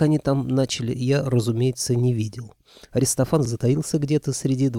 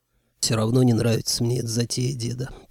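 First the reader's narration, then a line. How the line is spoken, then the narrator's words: Grumbled. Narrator (Russian): проворчал я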